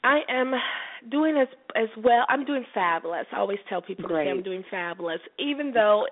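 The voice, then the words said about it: Congested, sick-sounding voice. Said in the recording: “if you've noticed my voice ... I actually caught a cold. So excuse my voice ... as you heard, I'm suffering from a little cold”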